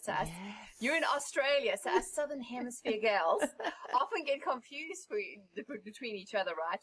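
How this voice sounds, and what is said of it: South African accent. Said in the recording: “so nice to have a different accent ... as you can tell, I'm from South Africa ... South Africa is different to Australian”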